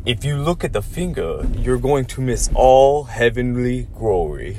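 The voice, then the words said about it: Imitates another person's voice. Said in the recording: “I don't know if that's the best impersonation of Bruce Lee, but it was pretty good.”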